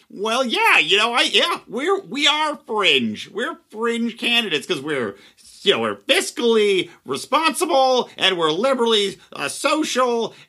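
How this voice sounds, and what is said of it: Imitates another person's voice. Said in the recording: “Gary does his Gary way ... that was not the best impression.”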